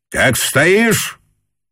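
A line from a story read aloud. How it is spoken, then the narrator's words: Shouting. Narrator (Russian): кричал он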